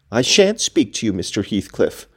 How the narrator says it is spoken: answered Catherine

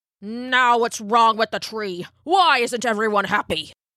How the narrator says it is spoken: snapped the elder

